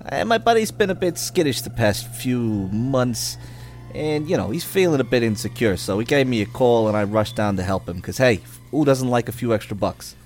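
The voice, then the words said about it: Convincing put-on character accent. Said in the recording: “That's an amazing accent. ... It's really good. ... He's either playing Matt Damon and or Leonardo DiCaprio.”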